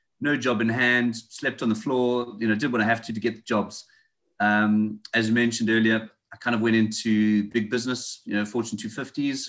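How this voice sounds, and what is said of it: South African accent. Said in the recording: “You can tell by my accent, I speak a bit funny. I'm not local. I'm from South Africa.”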